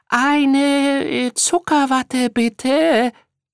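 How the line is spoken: Unusually high voice. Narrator (German): antwortete Carter mit besonders heller Stimme

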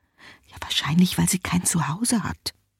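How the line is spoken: Mother whispering. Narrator (German): flüstert die Mutter

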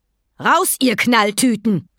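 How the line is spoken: Thundering shout. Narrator (German): donnerte sie

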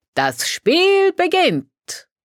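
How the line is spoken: Call. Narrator (German): Olindo rief

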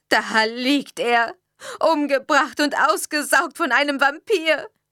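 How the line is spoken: Hysterical sobbing. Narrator (German): brach sie in hysterisches Schluchzen aus

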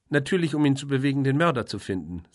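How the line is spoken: Sharp. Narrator (German): sagte Caroline scharf

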